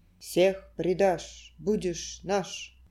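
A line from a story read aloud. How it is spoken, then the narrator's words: Grim summing up. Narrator (Russian): мрачно подытоживали трубы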